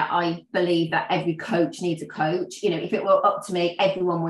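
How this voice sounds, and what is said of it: Usual voice. Nothing is said of it.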